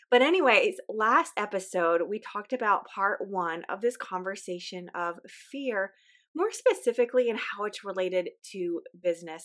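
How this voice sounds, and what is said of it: Weak, slightly off voice. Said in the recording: “please forgive my voice. My voice is weak. I've been getting over a little sickness ... my voice sounds a little off today. I'm just kind of struggling through getting my strength back”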